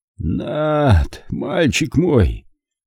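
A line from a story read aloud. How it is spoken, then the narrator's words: Hoarse rasp. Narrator (Russian): прохрипел Зик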